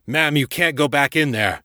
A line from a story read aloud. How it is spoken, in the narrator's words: the firefighter shouted